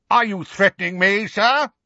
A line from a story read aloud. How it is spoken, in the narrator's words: he said, so loudly that passers-by actually turned to stare